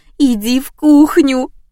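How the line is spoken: Tearful moan. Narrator (Russian): простонала подруга, по ее лицу текли слезы

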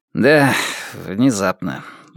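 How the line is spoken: Sigh. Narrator (Russian): вздохнул Джек Хобарт

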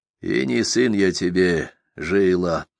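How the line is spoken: Barely audible grumble. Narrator (Russian): едва слышно ворчит Клавдия

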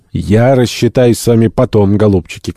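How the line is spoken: Shout. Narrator (Russian): крикнул он бунтарям

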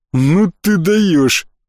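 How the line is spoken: Smirking snort. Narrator (Russian): в воцарившейся тишине хмыкнул Баламут

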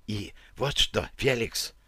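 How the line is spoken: Whispered on request. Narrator (Russian): Она продолжила шепотом, прислушавшись к моей просьбе

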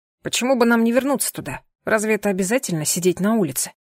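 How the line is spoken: Snorting. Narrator (Russian): Я фыркнула

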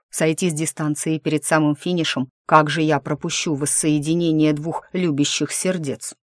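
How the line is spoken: Snide correction. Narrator (Russian): ехидно поправился

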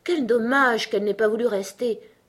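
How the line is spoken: Sighing declaration. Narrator (French): déclara le loris en soupirant

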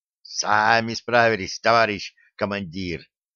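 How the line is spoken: Excited hiss in ear. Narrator (Russian): возбужденно прошипел в ухо

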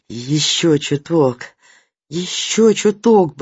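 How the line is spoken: Coaxing mutter. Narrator (Russian): бормотал Кеша мотору, будто живому, вздрагивающему под его рукой существу

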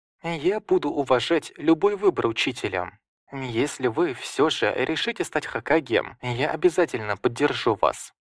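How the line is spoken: Quiet. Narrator (Russian): тихо сказал

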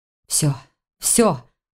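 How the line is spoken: Muttered to himself. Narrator (Russian): пробормотал он скорее самому себе

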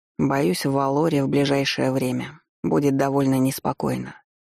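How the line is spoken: Confirming. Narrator (Russian): подтвердил мои мысли Тайлор

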